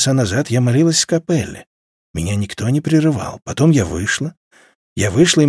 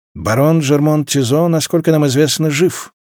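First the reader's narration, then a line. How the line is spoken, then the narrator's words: Dry, flat tone. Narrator (Russian): сухо произнес Тессори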